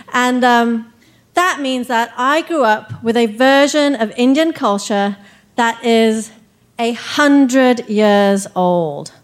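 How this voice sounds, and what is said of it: English accent. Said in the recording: “then to England, where I got my accent”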